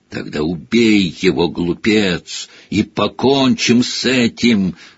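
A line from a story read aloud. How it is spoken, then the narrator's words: Hoarse shout. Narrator (Russian): хрипло выкрикнул Вольдеморт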